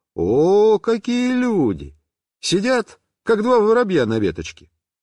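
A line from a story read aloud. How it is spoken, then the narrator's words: Cheerful. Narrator (Russian): весело сказал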